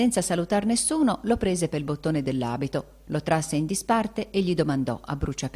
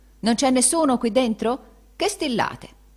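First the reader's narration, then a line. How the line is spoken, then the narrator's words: Exclamation. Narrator (Italian): esclamando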